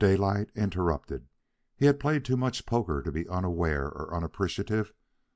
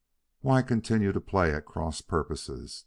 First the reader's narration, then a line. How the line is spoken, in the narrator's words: Dawson demanded abruptly and coldly